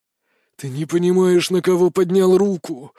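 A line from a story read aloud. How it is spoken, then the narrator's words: Hoarse rasp. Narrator (Russian): прохрипел высший советник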